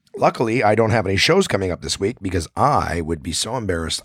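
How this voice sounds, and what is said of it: Raspy, hoarse voice. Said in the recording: “I'm back with my raspy voice ... This is about as bad as my voice was on Saturday night, but still, you can still hear it”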